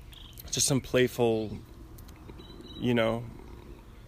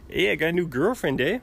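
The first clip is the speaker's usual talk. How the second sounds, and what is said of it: Mixed Canadian and Mexican accent. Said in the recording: “I'm just combining the Canadian and Mexican accents.”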